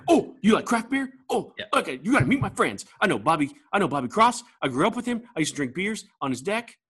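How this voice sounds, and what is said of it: Excitable imitation of another person. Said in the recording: “my Steve Seitner impression? ... Because he's so excitable. ... That's pretty good, actually.”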